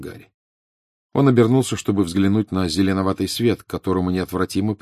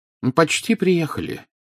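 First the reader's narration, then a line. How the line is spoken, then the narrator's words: Cheerful announcement. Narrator (Russian): весело сообщил Дамблдор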